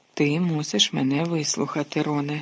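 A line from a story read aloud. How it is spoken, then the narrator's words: Calm. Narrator (Ukrainian): спокійно мовив Люпен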